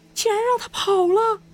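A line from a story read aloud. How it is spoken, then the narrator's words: Shouting, yelling. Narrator (Chinese): 车里的人在大喊大叫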